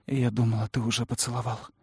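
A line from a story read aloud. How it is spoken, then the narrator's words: Whisper. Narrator (Russian): прошептала я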